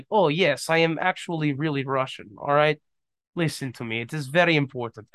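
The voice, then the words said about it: Put-on Russian accent. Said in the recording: “I did that accent and some girl thought I was actually Russian ... this accent is so intimidating ... sounded authentic”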